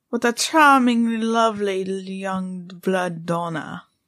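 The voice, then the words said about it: Bad put-on Transylvanian vampire accent. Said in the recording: “That was a bad accent. I mean, I can't do a Transylvanian accent, but that was a bad accent.”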